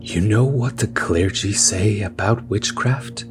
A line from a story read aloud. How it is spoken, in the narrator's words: he asked in his thin and wispy voice